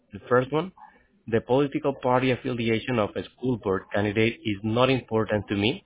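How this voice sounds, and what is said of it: Noticeable accent, fast speech. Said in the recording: “You're speaking faster and faster, and I'm having difficulty with your accent.”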